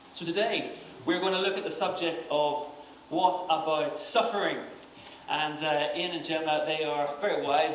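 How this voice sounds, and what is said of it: Strong accent, hard to understand. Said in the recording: “offer interpretation for my accent”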